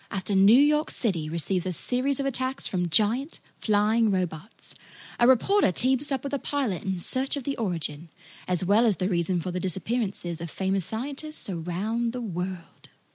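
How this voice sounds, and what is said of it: British accent. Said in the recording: “someone with a British accent had recorded some words about it”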